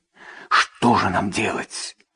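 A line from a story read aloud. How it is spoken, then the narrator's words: Whispered question. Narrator (Russian): шепотом спросила Ампаро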